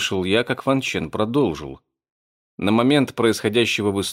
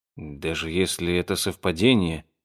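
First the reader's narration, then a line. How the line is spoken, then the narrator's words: Muttered. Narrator (Russian): пробормотал я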